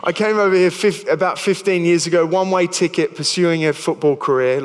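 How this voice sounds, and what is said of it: Australian accent. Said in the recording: “I've got a funny accent. I'm originally from Australia.”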